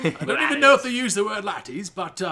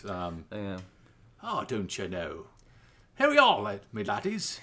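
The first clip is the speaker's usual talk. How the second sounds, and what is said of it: Attempted Irish accent. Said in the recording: “Can you do an Irish accent? ... send us a pure Irish accent? I'm going to have to do one here at some point.”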